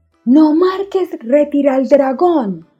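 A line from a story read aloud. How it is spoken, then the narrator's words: Shouting while crying. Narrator (Spanish): gritaba Isa llorando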